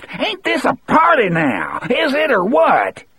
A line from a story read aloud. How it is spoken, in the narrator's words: Still screaming and laughing, Wharton